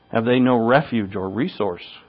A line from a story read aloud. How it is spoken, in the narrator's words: cried Scrooge